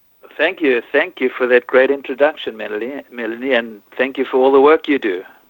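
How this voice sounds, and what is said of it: South African accent. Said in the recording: “that amazing accent ... I come from South Africa ... you don't really lose your accent ... So it's a South African accent.”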